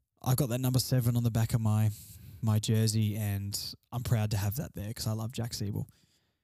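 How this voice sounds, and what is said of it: Tired, quieter than usual voice. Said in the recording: “my voice is a bit tired tonight ... I'm a little bit quieter than usual. I'm tired.”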